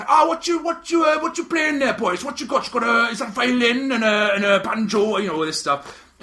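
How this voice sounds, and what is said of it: Thick Welsh valleys accent impression. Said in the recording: “a proper thick valley accent”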